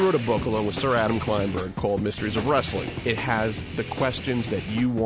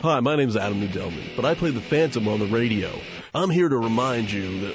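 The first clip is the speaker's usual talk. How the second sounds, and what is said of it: Put-on fake announcer voice. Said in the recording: “That's stupid fake voice, I hate it.”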